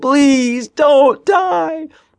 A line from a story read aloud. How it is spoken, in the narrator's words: Ben laughed out loud